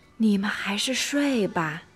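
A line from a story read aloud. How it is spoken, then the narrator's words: Soft explaining. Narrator (Chinese): 巴蒂轻声解释道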